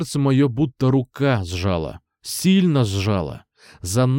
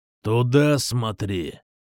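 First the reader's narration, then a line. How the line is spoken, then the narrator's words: Growled. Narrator (Russian): Прорычал коротко бритый Квазимода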